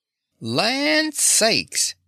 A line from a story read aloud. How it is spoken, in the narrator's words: exclaimed Dorothy's Aunt Em